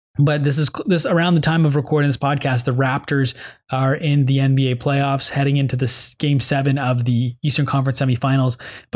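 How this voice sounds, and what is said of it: Worn, fading voice. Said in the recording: “my voice is slowly starting to go away here”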